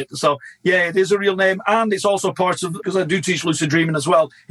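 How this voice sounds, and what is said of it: Lancashire British accent. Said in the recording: “you have a British accent ... I was born in Blackburn, Lancashire, hence the curse of my accent.”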